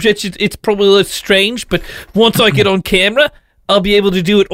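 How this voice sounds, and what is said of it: Put-on American accent. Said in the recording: “I'm trying to do my American accent.”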